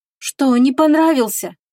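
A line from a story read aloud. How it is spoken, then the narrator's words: Sighing. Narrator (Russian): девушка вздохнула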